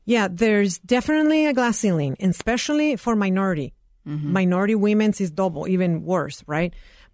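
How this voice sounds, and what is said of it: Latina immigrant accent. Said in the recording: “Latina woman, first generation immigrant with an accent”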